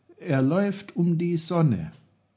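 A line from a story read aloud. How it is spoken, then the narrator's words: Calling out. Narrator (German): rief Peter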